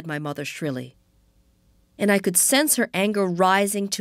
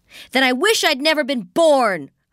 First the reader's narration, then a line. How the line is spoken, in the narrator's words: I shouted